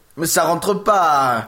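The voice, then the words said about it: Put-on Corsican or Italian accent. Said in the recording (French): “Pourquoi tu prends un accent corse ... Ça aurait été italien éventuellement”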